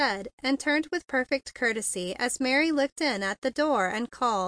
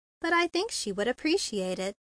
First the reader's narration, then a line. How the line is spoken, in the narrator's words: she said in a low tone